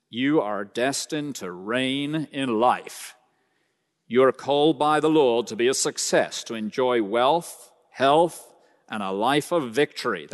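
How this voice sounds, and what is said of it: Put-on American accent. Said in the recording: “That's my American accent, by the way.”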